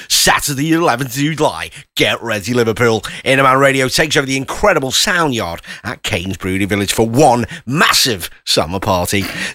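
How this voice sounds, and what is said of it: Cringey radio DJ voice. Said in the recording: “my DJ voice ... How do you like my voice? ... It's a bit cringe. ... it's very cringe.”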